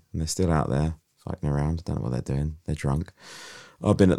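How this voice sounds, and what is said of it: Slightly hoarse voice. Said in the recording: “my voice is a bit hoarse.”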